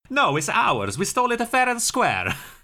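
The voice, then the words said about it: Poor put-on Italian accent. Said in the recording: “That was an Italian accent, so clearly neither can I.”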